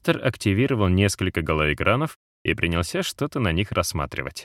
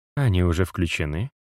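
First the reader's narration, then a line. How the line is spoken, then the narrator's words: Soft amused chuckle. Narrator (Russian): мягко усмехнулась Натали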